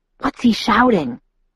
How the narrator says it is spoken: I whispered

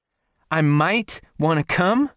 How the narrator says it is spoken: Morgan shouted

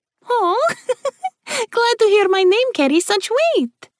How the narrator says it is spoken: Melody replied with a laugh

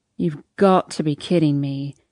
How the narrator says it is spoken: he groans

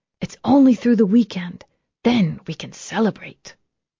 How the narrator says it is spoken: whispering

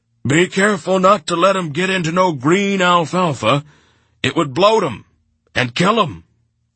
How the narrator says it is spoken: Corcoran bellowed after me

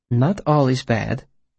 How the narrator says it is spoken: said gently

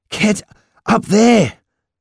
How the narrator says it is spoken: I said breathlessly

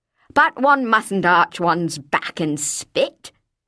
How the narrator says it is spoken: the old lady was saying

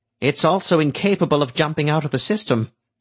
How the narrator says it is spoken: Swetnam said nervously

